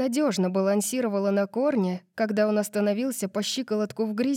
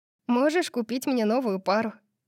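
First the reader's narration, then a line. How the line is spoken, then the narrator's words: Teasing. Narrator (Russian): поддразнила я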